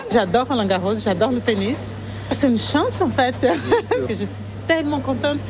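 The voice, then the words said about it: Warm Brazilian-accented French. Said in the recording (French): “la chef d'origine brésilienne ... accent gorgé de soleil”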